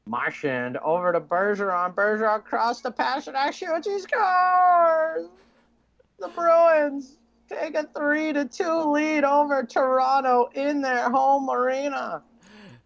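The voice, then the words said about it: Hockey play-by-play announcer impression. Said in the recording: “Doc Emrick impersonation ... That's good ... It'll sound just like Doc on NBC.”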